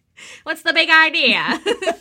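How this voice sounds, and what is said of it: Transatlantic accent. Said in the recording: “That was our transatlantic accent.”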